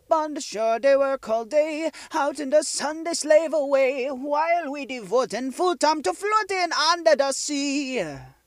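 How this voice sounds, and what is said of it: Sung put-on accent, slightly off. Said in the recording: “attempting the accent... At times it sounded a little odd, like it wasn't quite right”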